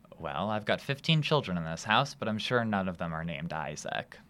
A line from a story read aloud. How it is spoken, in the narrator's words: says Miss Park